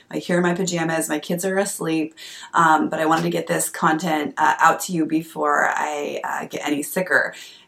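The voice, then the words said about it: Hoarse voice from a cold. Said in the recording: “as you can hear, I'm coming out with a little bit of a cold, starting to lose my voice”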